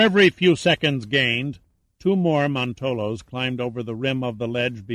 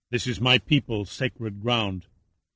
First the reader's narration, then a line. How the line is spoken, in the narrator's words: Yuma answered quietly